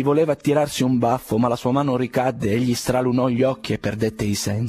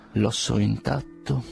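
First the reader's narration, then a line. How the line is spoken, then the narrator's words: Muttering through teeth. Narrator (Italian): mormorava tra i denti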